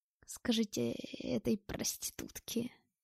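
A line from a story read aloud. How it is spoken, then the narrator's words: Hoarse wheeze. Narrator (Russian): прохрипел Глушков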